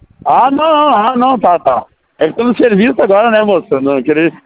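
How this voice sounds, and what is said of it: Southern Brazilian accent. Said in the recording (Portuguese): “Você é do Sul ... percebi pelo sotaque”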